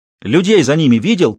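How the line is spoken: Shout. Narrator (Russian): крикнул ему Гектор

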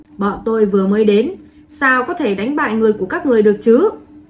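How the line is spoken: Cold commander's speech. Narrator (Vietnamese): Một thống lĩnh lạnh lùng nói

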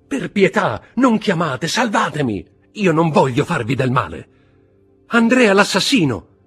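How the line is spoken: Woman's desperate cry. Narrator (Italian): gridò una delle due donne

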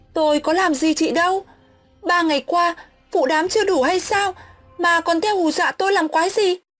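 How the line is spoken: Straining, shouting loudly. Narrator (Vietnamese): Mình ráng gồng hết sức, miệng hét toáng

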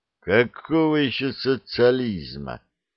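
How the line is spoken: Contemptuous, through teeth. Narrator (Russian): презрительно процедил

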